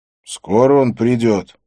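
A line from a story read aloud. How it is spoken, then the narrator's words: Plain. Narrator (Russian): спросил я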